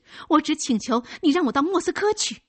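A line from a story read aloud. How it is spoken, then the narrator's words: Hurried explanation. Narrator (Chinese): 卡贾急忙解释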